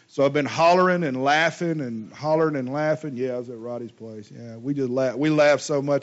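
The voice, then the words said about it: Hoarse, strained voice. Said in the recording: “I'm super hoarse today because we had a service a couple of weeks ago and I started hollering ... I laughed myself hoarse again”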